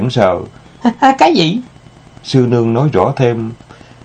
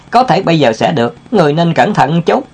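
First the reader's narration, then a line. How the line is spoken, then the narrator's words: Smiling. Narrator (Vietnamese): Tiểu Ngô mỉm cười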